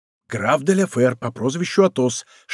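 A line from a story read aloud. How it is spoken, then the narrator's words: Whisper into ear. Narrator (Russian): шепнул Д'Артаньян на ухо Безмо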